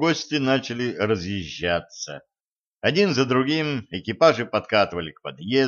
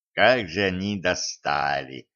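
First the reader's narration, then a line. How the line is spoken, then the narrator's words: Smiling, through gritted teeth. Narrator (Russian): лучезарно улыбаясь, процедил Кощей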